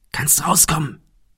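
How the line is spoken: Called softly. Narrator (German): rief Thomas leise

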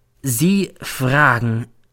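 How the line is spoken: Slow. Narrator (German): sagt dann langsam

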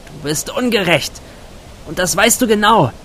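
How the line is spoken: Calling out into night. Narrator (German): rief sie in den Nachthimmel

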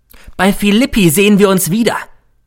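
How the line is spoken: Calling after. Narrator (German): rief er mir noch zu

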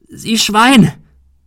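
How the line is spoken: Bellowed. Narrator (German): brüllte

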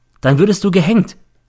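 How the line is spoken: Plain. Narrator (German): sagte ich

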